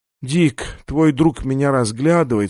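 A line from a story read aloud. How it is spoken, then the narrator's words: Weak complaining voice. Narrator (Russian): слабым голосом пожаловалась она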